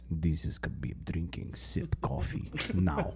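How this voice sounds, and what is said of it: Imitates another person's voice, poor accent. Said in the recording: “It's the worst accent.”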